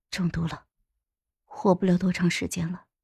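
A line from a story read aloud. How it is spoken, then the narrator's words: Low grave voice. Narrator (Chinese): 沉声说道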